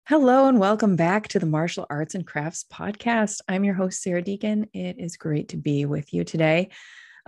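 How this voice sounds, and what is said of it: Voice sounds slightly congested. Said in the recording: “You can tell I have a little bit of a cold in my voice.”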